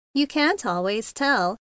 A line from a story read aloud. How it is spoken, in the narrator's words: said Mary Amber cheerfully